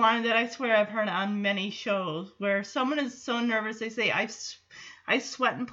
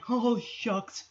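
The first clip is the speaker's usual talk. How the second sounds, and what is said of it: Cowardly Lion impression. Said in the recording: “his cowardly lion impression.”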